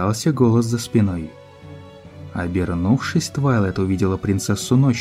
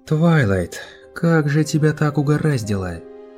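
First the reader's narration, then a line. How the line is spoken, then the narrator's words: Sighing. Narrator (Russian): вздохнула Луна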